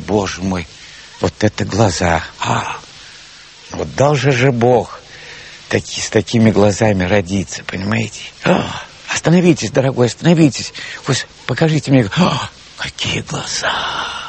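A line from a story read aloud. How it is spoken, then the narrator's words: Whispering voices. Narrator (Russian): все они шептали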